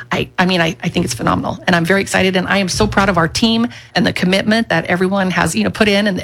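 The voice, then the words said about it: Voice tight with emotion. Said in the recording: “as you can tell, my voice gets a little tight because I am excited”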